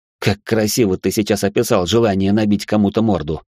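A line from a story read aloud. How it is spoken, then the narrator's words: Smirking grunt. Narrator (Russian): хмыкнул Алекс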